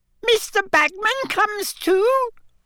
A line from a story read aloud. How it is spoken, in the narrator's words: squeaked Winky, she looked angry again